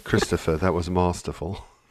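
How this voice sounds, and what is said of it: Put-on posh BBC English accent. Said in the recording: “BBC masterful ... With the accent ... if you do it in BBC English”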